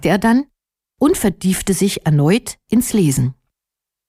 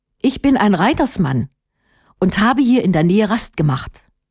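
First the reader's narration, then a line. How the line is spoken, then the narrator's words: Plain. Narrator (German): antwortete Erat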